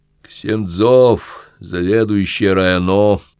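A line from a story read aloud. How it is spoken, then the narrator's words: Low droning voice. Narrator (Russian): прогудел над ухом сосед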